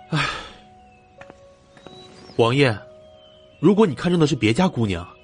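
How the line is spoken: Grave, heavy sigh. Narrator (Chinese): 荣琪一脸凝重，重重的叹了口气，说道

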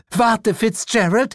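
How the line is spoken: Called out. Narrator (German): rief diese

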